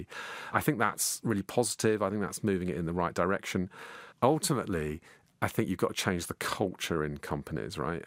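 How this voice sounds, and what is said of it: Posh middle-class English accent. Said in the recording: “my accent has got posher as the years have got ... I have become the middle class ... they say I sound like Tony Blair”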